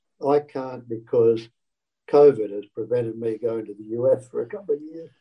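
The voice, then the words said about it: Australian accent. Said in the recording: “a funny accent from Australia”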